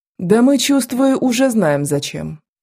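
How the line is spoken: Sighing. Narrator (Russian): вздохнула княжуля

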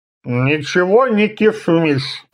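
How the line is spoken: Sleepy mumble. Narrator (Russian): пробормотал Хабиш, просыпаясь

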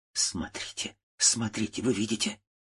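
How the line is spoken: Trembling voice. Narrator (Russian): сказала дрожащим голосом

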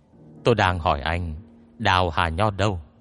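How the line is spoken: Cold. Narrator (Vietnamese): Dương Kiêu lạnh lùng nhìn Hoàng Nhiên nói

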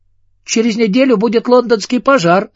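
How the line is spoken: Joyful girl. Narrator (Russian): радостно сказала девочка

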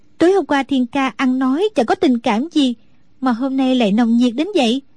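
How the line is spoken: Smiling question. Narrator (Vietnamese): Đinh Đan mỉm cười hỏi lại

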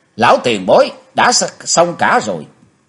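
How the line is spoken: Loud shout. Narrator (Vietnamese): Chí Tôn thét to lên

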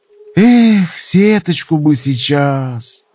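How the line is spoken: Sigh. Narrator (Russian): Вздохнул Винт

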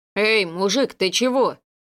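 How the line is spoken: Frightened deep voice. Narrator (Russian): Испуганно пробасил Анатолий

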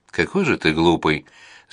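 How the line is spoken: Laughing. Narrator (Russian): засмеялась она

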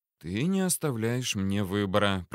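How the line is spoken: Whisper in ear. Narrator (Russian): прошептал ей на ухо

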